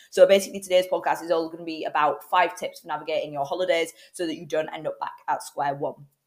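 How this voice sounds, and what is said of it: Hoarse, cold-affected voice. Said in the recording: “my voice is a little bit dodgy today. I'm full of cold and, well, I'm losing my voice ... apologies if I do sound like a teenage boy or if at any point my voice breaks”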